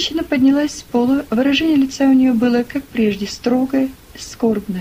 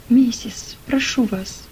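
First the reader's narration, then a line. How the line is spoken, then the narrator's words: Barely audible whisper. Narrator (Russian): Том чуть слышно прошептал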